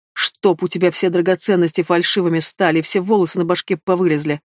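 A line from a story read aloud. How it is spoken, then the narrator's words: Spiteful blurted outburst. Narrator (Russian): злобно выпалила напоследок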